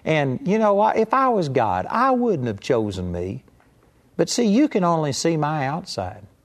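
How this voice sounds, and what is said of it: Rural Southern hick accent. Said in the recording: “I got a hick accent. ... I thought you were Gomer Pyle.”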